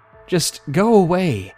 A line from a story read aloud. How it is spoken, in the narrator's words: yelled desperately, trying to keep my composure, but I could not deny the urge that I wanted to cry